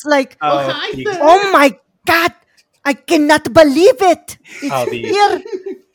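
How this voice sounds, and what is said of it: Exaggerated Sofia Vergara accent. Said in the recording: “a forced Sofia Vergara accent ... The over exaggerated.”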